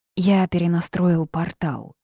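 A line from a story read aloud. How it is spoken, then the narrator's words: Dragon's sigh. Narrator (Russian): вздохнул дракон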